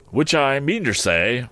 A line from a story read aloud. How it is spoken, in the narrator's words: cried Joe